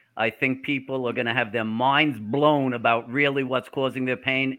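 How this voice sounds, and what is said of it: New York accent. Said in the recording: “we hear this accent ... is he from New Jersey? Is he from New York? He's not a Southerner ... I am a hardcore New Yorker”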